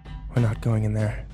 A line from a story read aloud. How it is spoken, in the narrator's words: I whispered